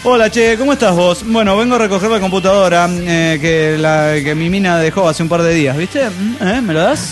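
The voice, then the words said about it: Put-on Argentine accent. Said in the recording (Spanish): “acento argentino”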